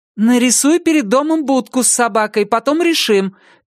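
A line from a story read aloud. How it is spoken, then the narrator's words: Shouted reply. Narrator (Russian): крикнула в ответ Наталья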